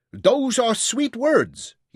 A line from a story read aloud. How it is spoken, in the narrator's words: shouted back